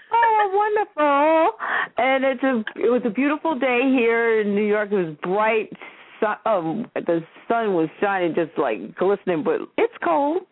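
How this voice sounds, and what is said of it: New York accent. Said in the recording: “I have my New York accent.”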